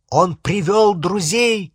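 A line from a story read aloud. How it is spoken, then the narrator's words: Shouting. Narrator (Russian): крикнул Гарри остальным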